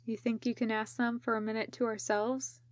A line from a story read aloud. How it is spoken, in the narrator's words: Genma asked Raito quietly